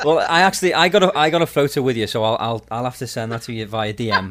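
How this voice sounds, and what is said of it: Liverpool English accent. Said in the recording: “I love your accent. ... Liverpool. ... normally it throws people off and they don't understand the accent.”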